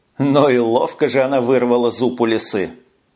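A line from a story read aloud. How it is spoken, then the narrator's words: Short laugh. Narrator (Russian): хохотнул Льюб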